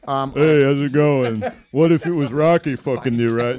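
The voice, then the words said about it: Poor Sylvester Stallone impression. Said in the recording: “the only impression that you can't do is Sylvester Stallone ... It's fucking awful. It's Sly.”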